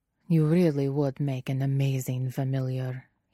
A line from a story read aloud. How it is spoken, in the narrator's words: he murmurs, lips brushing Guillermo's thumb